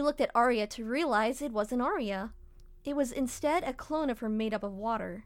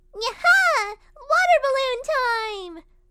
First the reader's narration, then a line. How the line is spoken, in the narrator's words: exclaiming